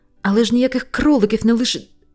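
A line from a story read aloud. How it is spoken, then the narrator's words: Cried out. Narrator (Ukrainian): скрикнув Венслідейл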